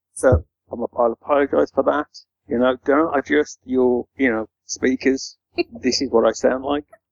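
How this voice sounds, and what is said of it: Birmingham (Brummie) accent. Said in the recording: “I've only got the voice I've got, so very broomy ... the Brummy accent”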